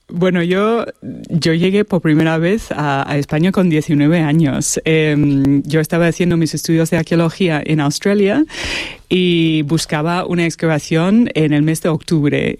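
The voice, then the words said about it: Australian accent speaking Spanish. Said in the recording (Spanish): “tienes un acento australiano, vamos, pero vamos, te lo hemos notado la primera”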